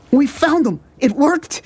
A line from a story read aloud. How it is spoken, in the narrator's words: he cried